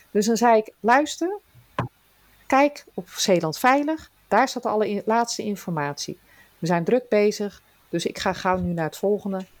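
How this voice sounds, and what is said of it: Broad Zeeland dialect accent. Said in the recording (Dutch): “Die begrijpen geen Zeeuws. ... ik praat natuurlijk met de plat op accent”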